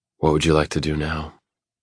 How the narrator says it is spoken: I keep my tone gentle and hopefully a little seductive

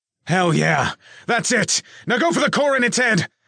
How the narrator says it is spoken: Nick yelled

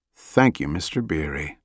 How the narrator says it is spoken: Jack muttered

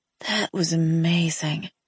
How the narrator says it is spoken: I murmured as the feeling in my limbs slowly came back

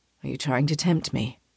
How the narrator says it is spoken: He asks in a low murmur

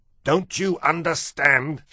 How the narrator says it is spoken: shouted Lester

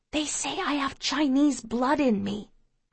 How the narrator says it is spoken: I whisper to him

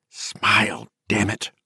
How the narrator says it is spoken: Hilly hissed

